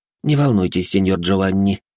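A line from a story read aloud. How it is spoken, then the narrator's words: Snorted. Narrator (Russian): хмыкнул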